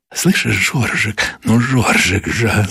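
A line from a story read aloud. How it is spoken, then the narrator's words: Breathy whisper. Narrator (Russian): зашептала она, жарко дыша ему в ключицу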